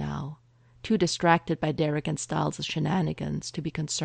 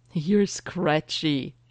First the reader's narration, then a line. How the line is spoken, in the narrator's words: he giggles